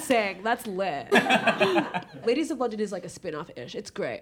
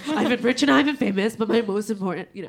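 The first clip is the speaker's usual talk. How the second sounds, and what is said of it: Imitates another person's voice. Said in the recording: “You also do a mean Kim Richards. ... I do a very good Kim Richards impression.”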